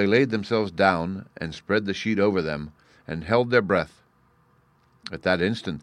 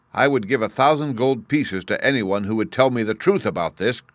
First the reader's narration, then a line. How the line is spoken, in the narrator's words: cried he